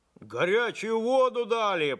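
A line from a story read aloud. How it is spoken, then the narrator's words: Shouting. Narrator (Russian): прокричал Максимыч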